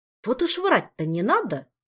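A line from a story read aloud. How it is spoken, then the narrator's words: Indignant snort, mouth full. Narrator (Russian): возмущенно фыркнул король Мистралии, попутно запихивая в рот конфету для успокоения растрепанных нервов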